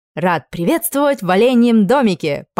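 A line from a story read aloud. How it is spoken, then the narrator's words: Grandiose exclamation. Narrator (Russian): пафосно воскликнул менеджер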